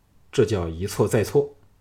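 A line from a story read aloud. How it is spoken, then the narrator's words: Cold, unsurprised. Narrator (Chinese): 小盘毫不惊讶的冷冷说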